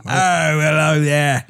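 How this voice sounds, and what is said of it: Put-on British accent. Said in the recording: “He has a very British accent”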